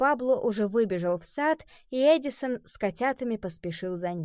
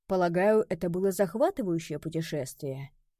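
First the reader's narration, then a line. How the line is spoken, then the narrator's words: Quiet question. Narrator (Russian): тихо спросил Горацио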